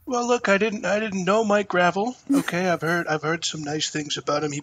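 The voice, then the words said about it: Imitates another person's voice. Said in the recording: “Trump impersonation too, because it's really good ... do Trump eulogizing Senator Gravel”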